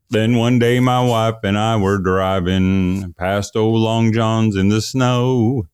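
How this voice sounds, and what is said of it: Sung with country twang. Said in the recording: “Can you hear that kind of country twang going?”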